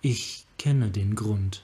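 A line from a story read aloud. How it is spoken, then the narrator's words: Soft-spoken. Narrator (German): sagte Yasova leise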